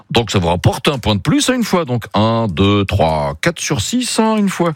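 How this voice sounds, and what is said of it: Speaks with a put-on accent. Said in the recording (French): “j'arrête de parler avec cet accent.”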